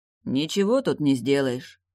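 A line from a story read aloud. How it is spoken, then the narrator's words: Gloomy, curt. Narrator (Russian): мрачно бросил тот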